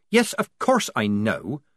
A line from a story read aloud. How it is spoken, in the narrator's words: said Polly irritably